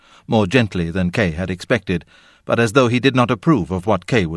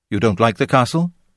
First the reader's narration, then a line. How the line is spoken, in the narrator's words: the teacher said quickly